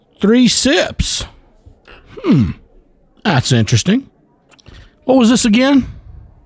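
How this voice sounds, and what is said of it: Poor put-on Southern accent. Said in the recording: “It's the worst Southern accent I've ever heard. Sounds like somebody from Wisconsin trying to do a Southern accent.”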